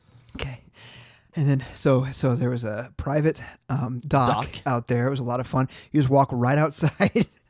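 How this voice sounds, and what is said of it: Out of breath. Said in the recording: “you sound so out of breath?”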